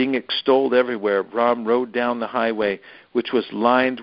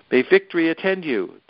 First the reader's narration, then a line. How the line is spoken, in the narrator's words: they cried out